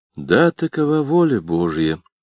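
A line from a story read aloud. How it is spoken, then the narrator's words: Sad young man muttering. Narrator (Russian): пробормотал молодой человек печально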